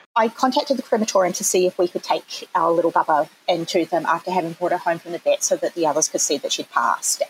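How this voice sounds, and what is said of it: New Zealand accent. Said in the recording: “I'm a Kiwi, which has probably come through already at some point in my accent.”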